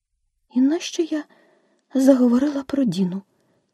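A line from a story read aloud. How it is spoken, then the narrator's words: Sad self-reproach. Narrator (Ukrainian): сумно докоряла собі Аліса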